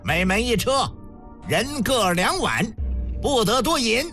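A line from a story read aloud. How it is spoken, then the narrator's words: Loud command. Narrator (Chinese): 高声下令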